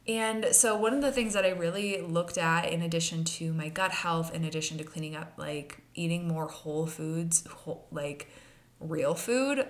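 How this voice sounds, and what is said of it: Congested voice from a cold. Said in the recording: “you might hear in my voice right now, I have a little bit of a cold.”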